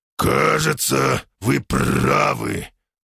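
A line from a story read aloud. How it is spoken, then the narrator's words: Hoarse, suppressing surprise. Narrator (Russian): прохрипел я в ответ, старательно давя в себе удивление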